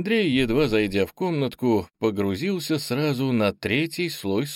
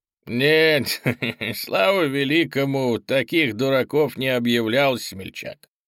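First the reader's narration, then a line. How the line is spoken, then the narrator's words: Fawning chuckle. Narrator (Russian): Подобострастно хохотнул владелец омута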